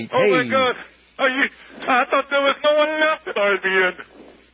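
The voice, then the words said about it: Poor put-on Yiddish rabbi accent. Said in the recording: “my Yiddish rabbi accent sucks.”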